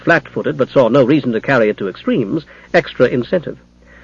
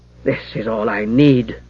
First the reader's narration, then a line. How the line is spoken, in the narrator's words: Jara muttered in exasperation